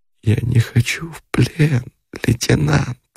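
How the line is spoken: Moaning. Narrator (Russian): простонала она

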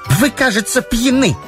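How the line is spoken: Disgusted exclamation. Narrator (Russian): брезгливо воскликнула Раиса

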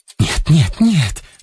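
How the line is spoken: Hurried pleading whisper. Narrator (Russian): заговорила она горячим, поспешным, умоляющим шепотом

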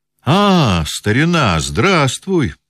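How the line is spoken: Exclaiming. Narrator (Russian): воскликнул Базаров

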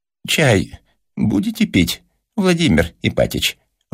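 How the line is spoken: Timid question. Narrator (Russian): робко осведомилась Марья Степановна

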